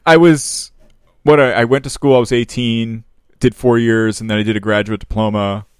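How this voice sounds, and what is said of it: Mock public-radio style voice. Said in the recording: “put on my NPR voice.”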